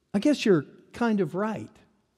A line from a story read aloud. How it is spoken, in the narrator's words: one girl meekly offered